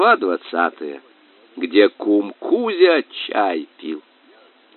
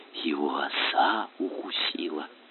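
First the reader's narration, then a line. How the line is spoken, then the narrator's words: Anxious whisper. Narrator (Russian): кума сказала тревожным шепотом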